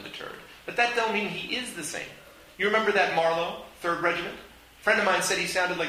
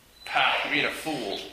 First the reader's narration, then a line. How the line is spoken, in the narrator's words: the other man scoffed